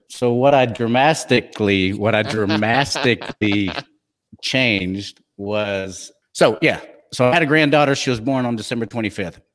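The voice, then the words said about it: Texan accent with a twang. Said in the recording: “I'm from Texas, for goodness sake. I'm gonna have a little twang, a little twiddle. I'm gonna have a little twang on it.”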